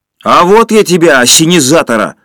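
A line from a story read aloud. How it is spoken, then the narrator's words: Yell. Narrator (Russian): заорал Женя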